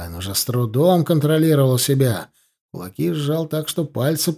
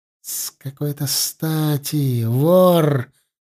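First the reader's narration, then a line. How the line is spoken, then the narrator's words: Furious hiss. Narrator (Russian): яростно прошипел Орлайн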